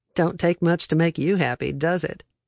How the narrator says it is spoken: Billy Lee chuckled

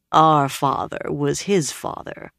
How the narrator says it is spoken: Gawain said dryly

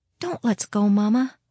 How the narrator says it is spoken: Liddy pleaded softly

